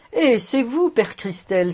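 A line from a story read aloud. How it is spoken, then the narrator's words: Joyful exclamation. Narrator (French): s'écria Fritz tout joyeux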